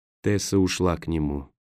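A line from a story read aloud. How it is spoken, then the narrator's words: Quiet whisper. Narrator (Russian): тихо прошептал Роэн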